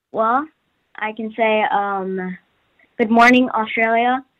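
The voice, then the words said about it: American accent. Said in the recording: “I have to use my American accent. ... That's really good.”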